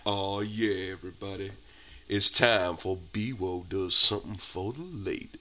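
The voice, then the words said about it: Sexy, sultry announcer voice. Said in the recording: “sexy voice”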